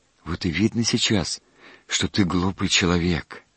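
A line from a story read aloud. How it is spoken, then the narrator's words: Sighing. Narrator (Russian): вздохнул отец Христофор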